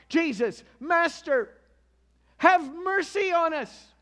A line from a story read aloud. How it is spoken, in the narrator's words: keeping their distance, these lepers called out